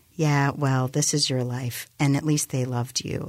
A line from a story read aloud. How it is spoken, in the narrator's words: Alicia said